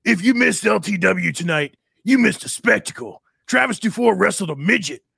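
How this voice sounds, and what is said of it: Imitates another person's voice. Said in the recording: “my best Travis DuFour impression. It's not going to be very good.”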